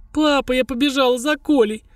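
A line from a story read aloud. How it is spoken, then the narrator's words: Sobbing. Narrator (Russian): всхлипывая произнесла Тоня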